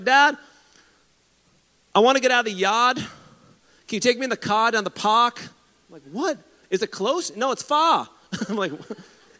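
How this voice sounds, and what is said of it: Imitated Boston accent. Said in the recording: “she came out with a Boston accent ... she has an East Coast accent ... she'd be like”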